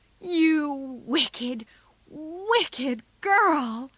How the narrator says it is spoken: cried Joe

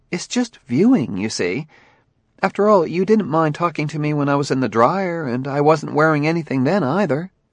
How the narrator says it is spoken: went on earnestly

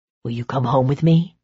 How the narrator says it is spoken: he murmured

